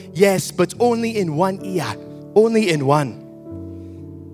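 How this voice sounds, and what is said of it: Put-on South African accent. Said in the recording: “this is my best South African accent.”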